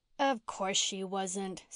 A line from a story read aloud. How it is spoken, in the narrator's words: scoffed Jerry